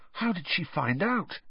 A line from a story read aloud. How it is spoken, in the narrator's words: whispered